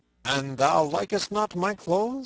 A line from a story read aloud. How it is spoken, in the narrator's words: said Robin, in a harsh voice like that of Guy of Gisborne